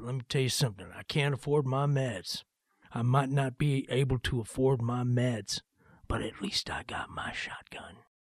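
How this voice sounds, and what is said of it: Put-on Southern accent. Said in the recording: “he's got a Southern accent”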